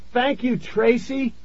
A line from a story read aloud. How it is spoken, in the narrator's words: I shouted